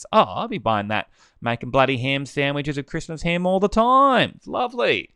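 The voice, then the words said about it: Broad bogan Australian accent. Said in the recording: “what happened to my accent then? The bogan is coming out.”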